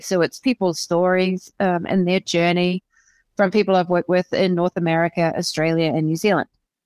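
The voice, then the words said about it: Slight New Zealand accent. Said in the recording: “I detect a little bit of an accent... so you're from New Zealand”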